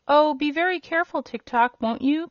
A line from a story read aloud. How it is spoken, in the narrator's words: cried the girl